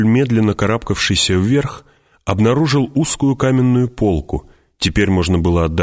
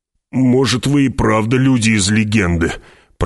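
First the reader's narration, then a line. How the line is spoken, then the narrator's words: Grumbling. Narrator (Russian): проворчал Стилгар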